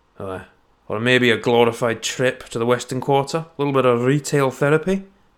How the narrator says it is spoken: grunted Scribe

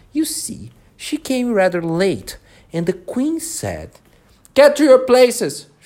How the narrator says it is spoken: shouted the queen in a voice of thunder

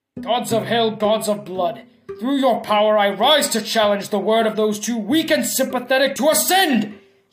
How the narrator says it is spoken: he roared, his voice shaking the whole of the mansion

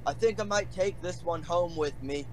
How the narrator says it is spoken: He yells at Avernol

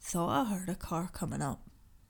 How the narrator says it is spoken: he said in a low tone

